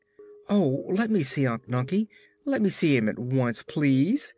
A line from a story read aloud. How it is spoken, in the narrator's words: cried Ojo, eagerly